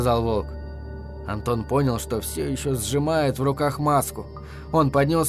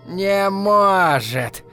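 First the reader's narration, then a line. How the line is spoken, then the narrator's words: Creaky bird voice. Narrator (Russian): проскрипела птица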